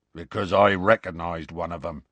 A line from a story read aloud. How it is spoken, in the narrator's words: Hagrid growled